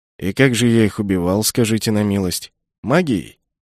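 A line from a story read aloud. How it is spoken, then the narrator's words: Scoffing snort. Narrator (Russian): Я хмыкнул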